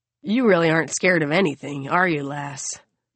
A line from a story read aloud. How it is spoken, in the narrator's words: Ramona sighs